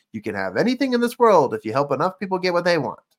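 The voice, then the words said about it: Zig Ziglar impression, not very squeaky. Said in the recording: “my best impression of Zig Ziglar. Not a great one. He's a little bit more squeakier at the end.”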